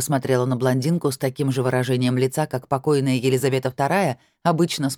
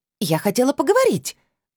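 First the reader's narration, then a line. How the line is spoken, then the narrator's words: Shrieking. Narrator (Russian): взвизгнула блондинка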